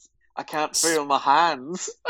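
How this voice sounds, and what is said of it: Poor put-on Glaswegian accent. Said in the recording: “That's a terrible Glaswegian accent”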